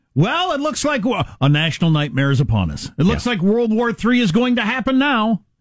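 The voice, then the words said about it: Imitating a dramatic cable news anchor. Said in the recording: “my imitation of cable news”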